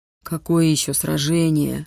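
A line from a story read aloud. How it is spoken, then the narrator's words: Puzzled mutter. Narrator (Russian): недоуменно пробурчал Витюня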